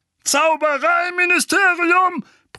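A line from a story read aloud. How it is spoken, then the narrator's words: Bellowed. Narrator (German): brüllte Onkel Vernon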